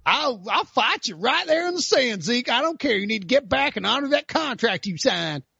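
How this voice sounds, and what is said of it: North Carolina redneck accent. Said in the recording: “my North Carolina redneck impression.”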